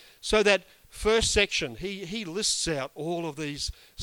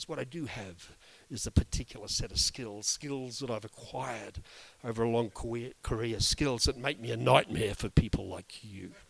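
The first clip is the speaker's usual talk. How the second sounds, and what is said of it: Attempted Liam Neeson impression. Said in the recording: “put on that very best Liam Neeson accent ... I can't do the accent”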